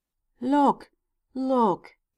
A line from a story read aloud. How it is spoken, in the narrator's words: cried the tree